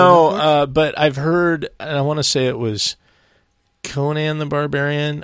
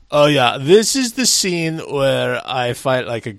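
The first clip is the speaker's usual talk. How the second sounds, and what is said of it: Deliberately poor celebrity impression. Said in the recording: “I'm doing a terrible Arnold impression.”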